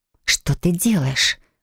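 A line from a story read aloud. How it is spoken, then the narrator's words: Indignant whisper. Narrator (Russian): возмущенно прошептала я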